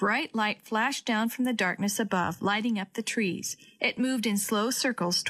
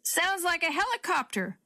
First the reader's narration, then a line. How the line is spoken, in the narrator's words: Grandpa yelled back